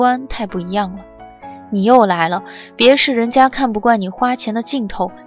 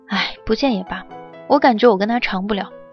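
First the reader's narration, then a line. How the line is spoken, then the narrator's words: Sighing. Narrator (Chinese): 提到交往了几个月的男友，钱嘉熙倒叹气了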